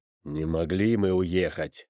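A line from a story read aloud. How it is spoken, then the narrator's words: Grim snuffling elder. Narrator (Russian): мрачно засопел Буруни из Перкоты, старший по возрасту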